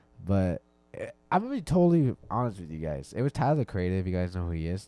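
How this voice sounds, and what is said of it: Voice not fully back to normal. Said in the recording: “as you can tell, my voice is still getting a little bit back to normal”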